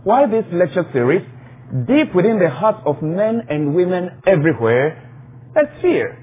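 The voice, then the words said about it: Non-native English accent. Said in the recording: “I'm conscious of my accent ... in case you miss some of my accent.”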